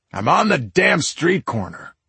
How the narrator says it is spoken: he barked at the caller

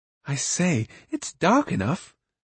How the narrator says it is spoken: Roon whispered cheerfully

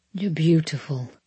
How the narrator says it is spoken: he whispered

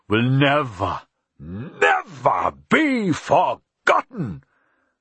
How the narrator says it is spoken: he said slowly, his voice rising to a shout

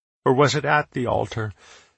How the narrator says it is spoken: She sighed sadly

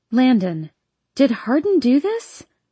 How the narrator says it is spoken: My voice is shaky

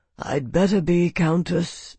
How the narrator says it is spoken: murmured the First Lord

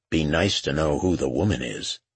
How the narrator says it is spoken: Lucas said

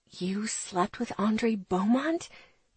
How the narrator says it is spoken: Charlie whispers after a moment

